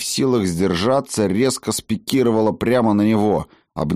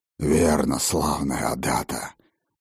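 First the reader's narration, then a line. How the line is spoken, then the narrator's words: Growl. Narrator (Russian): прорычал он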